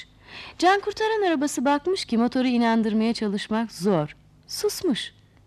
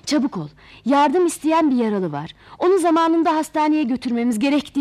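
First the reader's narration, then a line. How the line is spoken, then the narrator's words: Shouting. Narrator (Turkish): diye bağırınca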